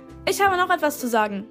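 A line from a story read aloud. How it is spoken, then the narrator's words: Called out. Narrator (German): rief uns Miss Shygirl zu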